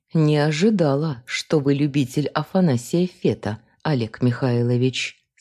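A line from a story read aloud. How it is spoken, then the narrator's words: Plain. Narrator (Russian): сказала я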